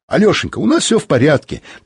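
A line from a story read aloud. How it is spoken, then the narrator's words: Hurried report. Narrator (Russian): торопливо сообщил Михаил Антонович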